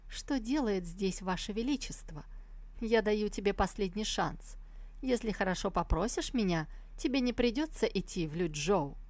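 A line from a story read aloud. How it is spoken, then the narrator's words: Dry question. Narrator (Russian): сухо спросила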